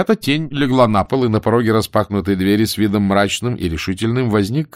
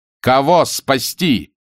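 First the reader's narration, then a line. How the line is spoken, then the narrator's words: Exasperated shout. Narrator (Russian): крикнул капитан Блад, выведенный всем этим из себя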